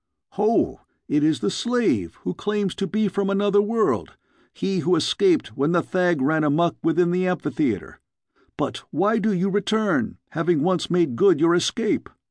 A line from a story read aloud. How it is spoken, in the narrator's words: shouted